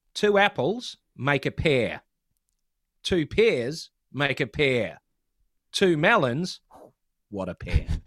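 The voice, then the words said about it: New Zealand accent. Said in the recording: “a lot of it relies on a New Zealand accent.”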